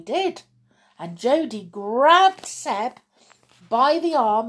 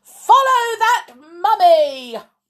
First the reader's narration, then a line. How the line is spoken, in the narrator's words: That's when Zach shouted